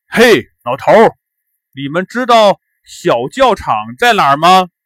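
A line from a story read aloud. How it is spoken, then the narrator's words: Shouting. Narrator (Chinese): 刘高叫道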